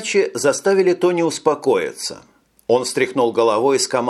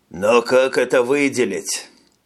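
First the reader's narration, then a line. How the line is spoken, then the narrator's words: Colonel sighing. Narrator (Russian): Полковник вздохнул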